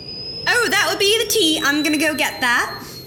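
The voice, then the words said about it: Put-on British accent. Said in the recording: “In my newly British accent.”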